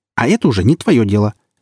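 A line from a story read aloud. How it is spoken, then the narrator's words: Sharp reply. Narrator (Russian): резко ответила Ружина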